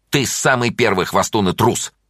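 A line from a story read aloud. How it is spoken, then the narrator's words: Angry. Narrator (Russian): сердито сказала Таня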